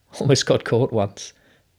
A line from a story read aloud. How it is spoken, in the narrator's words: Bruno laughed